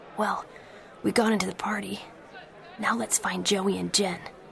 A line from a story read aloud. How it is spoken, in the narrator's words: Pacey whispered to him